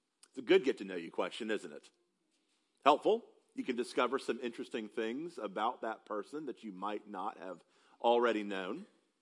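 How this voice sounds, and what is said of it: South Carolina Southern US accent. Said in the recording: “they can't quite place my accent, that I'm from South Carolina”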